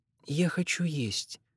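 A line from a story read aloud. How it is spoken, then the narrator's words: Quiet. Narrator (Russian): так же тихонько сказала она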